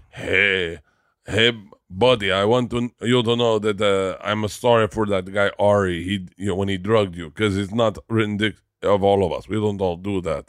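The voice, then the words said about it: Attempted Israeli accent. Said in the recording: “I'm going to do the accent wrong. I'm trying to do an Israeli accent.”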